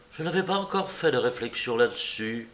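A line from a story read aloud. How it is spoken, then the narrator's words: Sighing woman. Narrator (French): dit la belle avec un soupir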